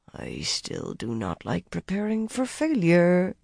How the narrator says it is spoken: Arion murmured into her teacup

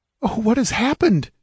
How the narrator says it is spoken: she cried

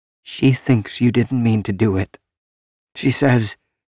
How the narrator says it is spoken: Loras, in a choked, constricted voice, said

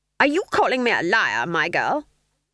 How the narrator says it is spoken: snapped Granny

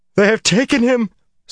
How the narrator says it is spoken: wailed suddenly, shockingly

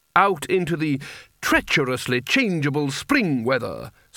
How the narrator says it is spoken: snarled Spelter

